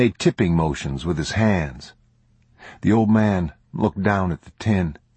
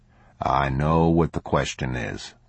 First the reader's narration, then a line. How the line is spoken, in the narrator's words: the man said